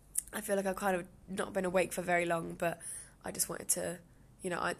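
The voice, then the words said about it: Slightly croaky voice. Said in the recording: “my voice is feeling a little bit croaky”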